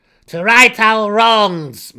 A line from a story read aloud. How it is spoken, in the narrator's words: Malus cried out aloud